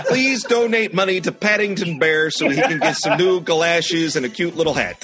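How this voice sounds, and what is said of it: Put-on northern Wisconsin accent. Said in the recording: “Is he from northern Wisconsin? ... It's the accent that I default to.”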